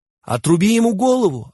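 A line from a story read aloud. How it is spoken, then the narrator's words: Crowd yelling. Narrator (Russian): орали они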